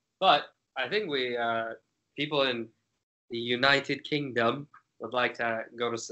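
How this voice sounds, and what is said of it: Poor imitation British accent. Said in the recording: “Was a terrible British accent. Don't do that. ... Not that bad. ... My accent probably sounds like garbage”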